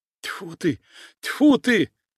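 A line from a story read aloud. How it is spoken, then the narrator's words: Frightened spitting. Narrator (Russian): испуганно заплевался предатель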